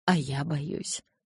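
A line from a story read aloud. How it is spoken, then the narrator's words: Whisper. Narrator (Russian): прошептал он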